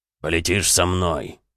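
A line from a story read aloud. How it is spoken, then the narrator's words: Peremptory booming drone. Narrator (Russian): безапелляционно прогудел Бронзовый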